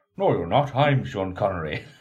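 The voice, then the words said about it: Put-on Irish accent. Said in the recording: “In an Irish accent.”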